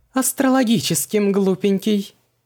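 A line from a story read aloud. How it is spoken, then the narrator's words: Loud laughing woman. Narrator (Russian): захохотала экстрасенс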